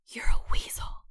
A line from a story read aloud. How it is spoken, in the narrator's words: I whispered